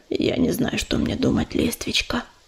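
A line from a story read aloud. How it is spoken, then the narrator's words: Hoarse exhale. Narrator (Russian): хрипло выдохнул он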